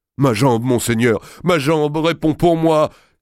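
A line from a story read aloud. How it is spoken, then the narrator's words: Exclaiming. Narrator (French): s'écria Évrard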